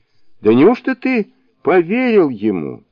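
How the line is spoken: Speaking through laughter. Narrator (Russian): заливаясь хохотом, проговорил Шасен

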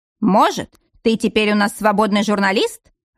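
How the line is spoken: Growl. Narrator (Russian): рычал он

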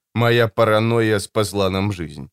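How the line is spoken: Perfectly calm reply. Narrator (Russian): совершенно спокойно ответила Кларисса

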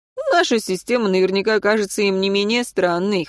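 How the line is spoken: Amused grunt. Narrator (Russian): хмыкнул Мартин

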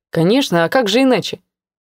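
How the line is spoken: Calm, smiling. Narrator (Russian): Все так же улыбаясь, спокойно рассуждал Филипп

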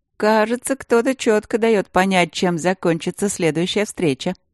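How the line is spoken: Snide teasing inner voice. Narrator (Russian): ехидно подтрунил внутренний голос

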